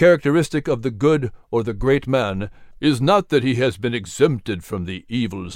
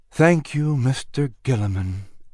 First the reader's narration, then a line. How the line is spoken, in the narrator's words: said softly